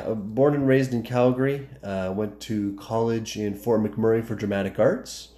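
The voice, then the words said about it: Slight Canadian accent. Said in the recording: “I'm from Calgary, so you can probably hear the accent a little bit.”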